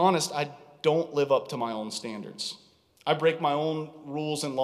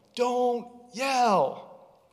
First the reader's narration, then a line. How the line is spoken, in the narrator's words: I'm yelling